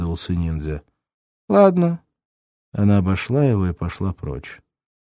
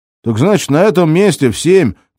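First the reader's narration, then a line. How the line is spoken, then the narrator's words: Shouting after someone. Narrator (Russian): крикнул вдогонку ниндзя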